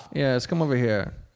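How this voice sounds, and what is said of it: Poorly done put-on accent. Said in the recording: “that was a terrible accent.”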